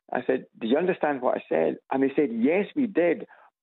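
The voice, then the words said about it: Scottish accent. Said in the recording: “what was your accent? ... the Scots accent is kind of fairly well known ... a gentleman today who thought I was Irish ... there is a crossover between Scots and Irish accent”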